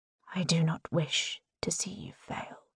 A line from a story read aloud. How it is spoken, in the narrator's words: he whispers